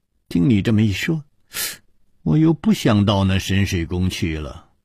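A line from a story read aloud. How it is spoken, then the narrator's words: Long sigh. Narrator (Chinese): 李红秀也长叹了一声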